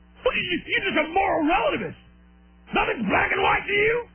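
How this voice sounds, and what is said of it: Yelling caricature voice. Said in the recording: “What voice is that? That's my impersonation of liberals or conservatives yelling at me”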